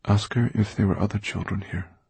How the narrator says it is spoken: said Dustfinger softly

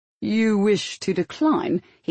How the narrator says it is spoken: he said disbelievingly

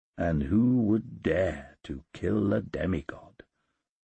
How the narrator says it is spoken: muttered

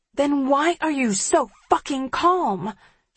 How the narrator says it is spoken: She hisses

